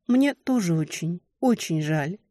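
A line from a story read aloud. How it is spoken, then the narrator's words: Quiet, longing. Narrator (Russian): проговорила тихо, с тоской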